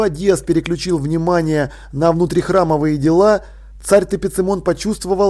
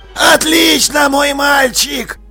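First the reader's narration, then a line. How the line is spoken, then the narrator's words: Hoarse. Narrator (Russian): Хрипло проговорила одна из мумий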